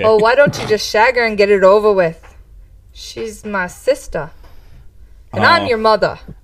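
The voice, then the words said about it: Attempted Irish accent, fading out. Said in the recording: “I kind of went from an accent to a non-accent there at the end ... You have to get more to the Irish of it.”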